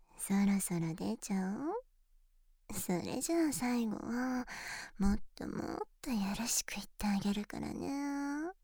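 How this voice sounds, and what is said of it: Whispering close to the ear. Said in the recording (Japanese): “耳元で...ささやかれる”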